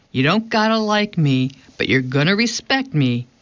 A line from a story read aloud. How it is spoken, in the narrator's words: he says